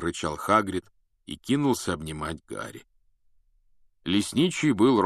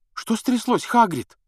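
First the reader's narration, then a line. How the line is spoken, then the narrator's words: Frightened question. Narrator (Russian): спросила испуганно Гермиона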